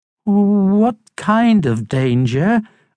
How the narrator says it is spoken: asked Harold

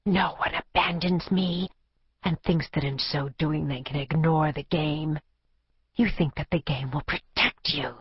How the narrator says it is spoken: hissed, demented with love and betrayal

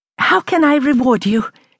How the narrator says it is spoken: exclaimed

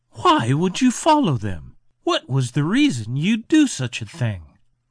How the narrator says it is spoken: Sighing, he replied

